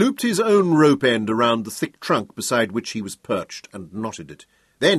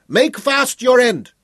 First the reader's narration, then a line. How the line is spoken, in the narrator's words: Schroeder shouted across the river